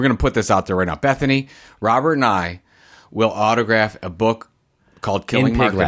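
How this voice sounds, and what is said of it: Usual voice. Nothing is said of it.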